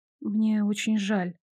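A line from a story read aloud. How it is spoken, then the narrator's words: Quiet. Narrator (Russian): негромко произнесла я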